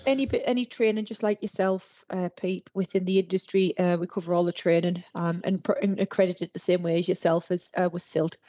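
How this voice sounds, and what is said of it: Durham English regional accent. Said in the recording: “if you can't tell by ... accent, what part of the world are you from ... Durham.”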